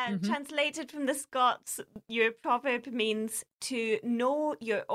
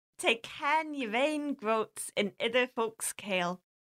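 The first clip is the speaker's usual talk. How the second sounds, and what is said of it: Thick put-on festive Scots accent. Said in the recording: “In your thickest Christmas accent ... That was quite good ... That's my festive voice.”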